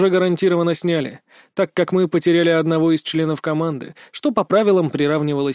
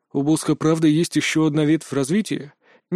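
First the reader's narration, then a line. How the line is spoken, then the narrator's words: Quiet question. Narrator (Russian): негромко поинтересовался Нолан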